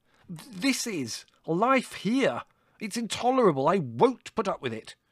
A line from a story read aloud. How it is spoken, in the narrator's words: shouted Larry